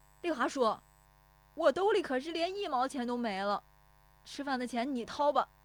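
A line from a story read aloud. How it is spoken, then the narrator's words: Shouting while chasing. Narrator (Chinese): 石有福撵着喊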